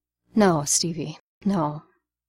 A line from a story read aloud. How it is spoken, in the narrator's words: Barnes said softly, all kindness